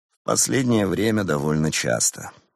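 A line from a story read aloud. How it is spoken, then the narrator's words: Gloomy. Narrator (Russian): мрачно ответил Теодор Башенко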